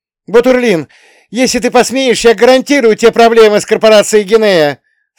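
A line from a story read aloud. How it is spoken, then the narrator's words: Shout. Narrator (Russian): Снова крикнула Пухина Максу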